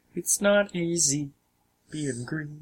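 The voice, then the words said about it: Kermit the Frog character voice. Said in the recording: “Kermit the Frog... it's a totally different voice... their speech pattern adds a lot to it”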